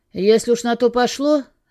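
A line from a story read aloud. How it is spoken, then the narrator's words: Rude. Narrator (Russian): грубо продолжил он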